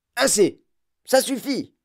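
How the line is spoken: Fat shopkeeper shouting. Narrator (French): cria le gros boutiquier

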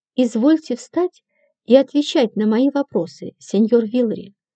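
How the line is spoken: Calm official. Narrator (Russian): спокойно предложил комиссар

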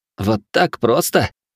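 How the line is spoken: Snorting chuckle. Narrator (Russian): хмыкнул Хироши

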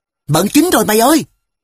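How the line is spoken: Delighted loud shout. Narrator (Vietnamese): Vô cùng thích thú, tôi hét toáng với Hồng Hoa

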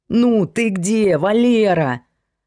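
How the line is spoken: Indignant yell into phone. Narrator (Russian): Возмущенно завопил в трубку майор Новиков, когда Валера просидел в машине 1 час и 10 минут

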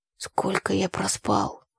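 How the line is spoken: Mumble. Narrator (Russian): пробормотал брат

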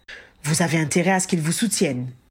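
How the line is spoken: Growling. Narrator (French): grogna Fawcett

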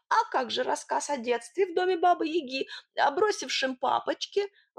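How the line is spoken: Desperate whine. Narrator (Russian): в отчаянии проскулил Сидор

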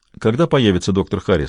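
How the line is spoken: Plain. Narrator (Russian): спросил

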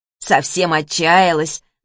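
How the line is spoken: Mocking. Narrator (Russian): насмешливо проговорила Гуля

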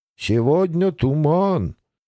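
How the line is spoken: Drawling, at a loss. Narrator (Russian): протянул некромант, видимо, не зная, что сказать еще

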